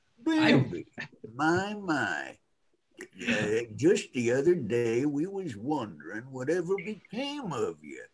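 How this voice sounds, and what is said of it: Old man character voice. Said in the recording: “Friend Owl just sounds like an old man ... my old man voice”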